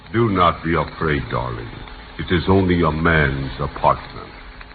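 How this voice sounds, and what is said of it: Romantic suave TV-host voice. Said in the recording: “That fella on television who calls himself the Continental ... Boy, is he romantic. ... who am I imitating?”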